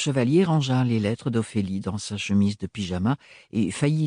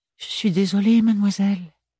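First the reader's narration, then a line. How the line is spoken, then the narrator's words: Knight sighing. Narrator (French): soupira le chevalier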